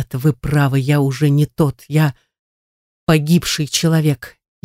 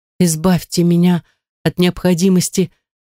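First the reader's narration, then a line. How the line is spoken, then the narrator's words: Pleading, somewhat recovered. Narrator (Russian): взмолилась Эмилия, немного оправившись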